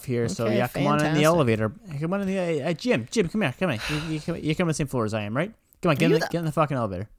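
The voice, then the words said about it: Shady salesman character accent. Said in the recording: “same shady accent guy”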